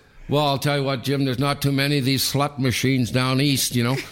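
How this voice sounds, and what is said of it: Imitating a teammate's regional accent. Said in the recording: “He had the great accent, you know.”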